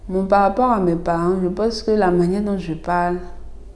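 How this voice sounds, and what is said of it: Abidji-influenced French, strong R, singsong. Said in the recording (French): “mon accent, c'est l'accent de quelqu'un qui parle Abidji ... les Abidji appuient beaucoup sur le R ... j'appuie souvent sur le R ... mon intonation est un peu chantante ou mieux chantante”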